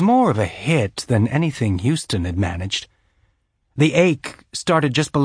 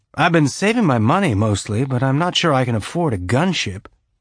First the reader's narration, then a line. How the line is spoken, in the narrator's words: Bobby said, keeping her tone light, trying to make a joke of it